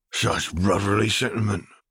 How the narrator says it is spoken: muttered Mundungus Fletcher

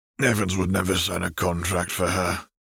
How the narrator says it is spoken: Arcturus sighed

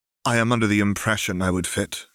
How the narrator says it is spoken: said flatly

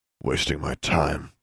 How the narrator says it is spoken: John grumbled

